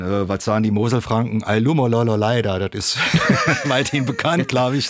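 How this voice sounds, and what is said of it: Moselle Franconian German dialect. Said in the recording (German): “Dein Dialekt ist Schwalbacher Platt, oder? ... Moselfränkisch, Schwalbacher Platt, Saluja Gegend ... Hast du mal eine kurze Dialektprobe?”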